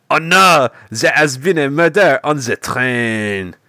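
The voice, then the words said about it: Comical put-on French-Belgian accent. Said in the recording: “this horrendous ... accent ... Just this comical French-Belgian accent”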